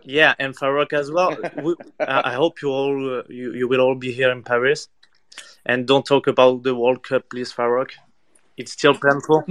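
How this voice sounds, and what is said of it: French accent. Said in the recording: “sorry in advance for the French accent”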